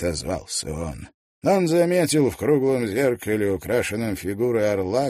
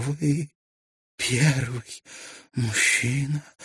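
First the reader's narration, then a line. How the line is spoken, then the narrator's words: Breathy whisper. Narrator (Russian): прошептала она на выдохе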